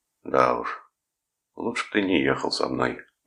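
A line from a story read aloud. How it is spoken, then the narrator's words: Sad. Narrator (Russian): грустно сказал Томас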